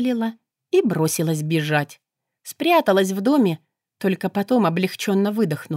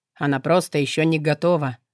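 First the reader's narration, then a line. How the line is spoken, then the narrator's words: Calm. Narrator (Russian): спокойно произнес низший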